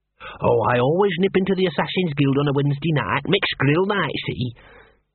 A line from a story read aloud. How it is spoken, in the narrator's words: Gaspode sighed at Angua's blank expression